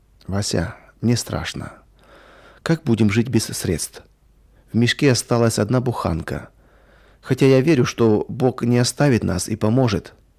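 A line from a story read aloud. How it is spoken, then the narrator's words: Quiet. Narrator (Russian): Она негромко сказала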